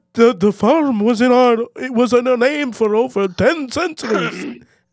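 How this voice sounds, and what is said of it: Bad put-on Irish accent. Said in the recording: “That was a bad Irish accent.”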